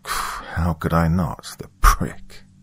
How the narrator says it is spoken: I muttered

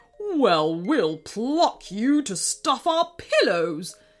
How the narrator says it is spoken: sneered King Krusty in reply

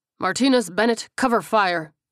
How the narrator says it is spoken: the captain barked

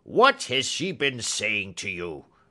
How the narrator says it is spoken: cried the old man furiously

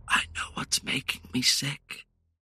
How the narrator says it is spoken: I whispered

